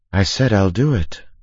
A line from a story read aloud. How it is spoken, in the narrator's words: said, calmly